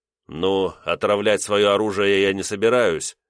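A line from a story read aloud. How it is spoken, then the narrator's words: Snorting. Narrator (Russian): хмыкнул я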